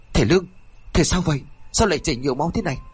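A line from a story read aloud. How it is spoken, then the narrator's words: Frantic calling. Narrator (Vietnamese): Y Điêng liền gọi rối rít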